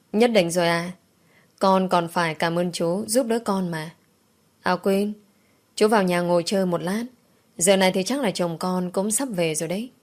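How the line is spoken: Laughing loudly. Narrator (Vietnamese): Tôi cười lớn

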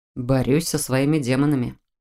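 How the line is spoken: Gloomy admission. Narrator (Russian): мрачно признал

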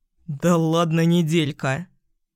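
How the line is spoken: Chuckle. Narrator (Russian): хохотнул Саня

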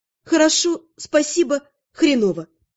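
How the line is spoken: Plain. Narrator (Russian): ответила я

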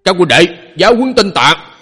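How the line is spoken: Grim shout. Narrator (Vietnamese): sắc mặt trầm xuống, một tên trong số đó quát lên

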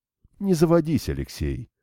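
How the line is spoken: Calm. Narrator (Russian): спокойно сказал Новиков

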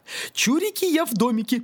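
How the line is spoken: Shrieking chant. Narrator (Russian): провизжала она охранное заклинание

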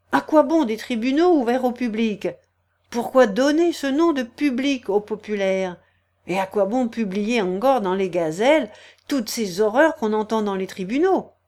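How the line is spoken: Exclaimed. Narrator (French): il s'écriait

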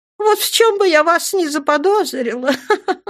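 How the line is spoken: Laughing. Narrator (Russian): рассмеялась Дженнифер

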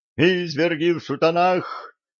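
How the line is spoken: Groan from the crowd. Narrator (Russian): простонал кто-то из толпы

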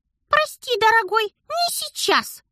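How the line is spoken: Mischievous squeak. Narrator (Russian): Шкодливо пискнул Дар

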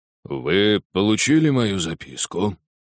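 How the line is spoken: Low hoarse male. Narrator (Russian): спросил он низким хриплым голосом

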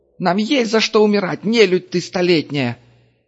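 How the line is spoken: Hysterical shout. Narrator (Russian): истерично прокричал выброшенный Гонзой из рубки рулевой

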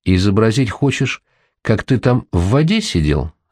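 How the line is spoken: Plain. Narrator (Russian): спросил он

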